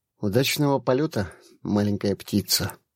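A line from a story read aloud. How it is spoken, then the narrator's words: Quiet. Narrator (Russian): тихо сказал он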